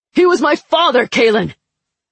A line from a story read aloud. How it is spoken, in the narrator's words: Kontz's shout echoed in the room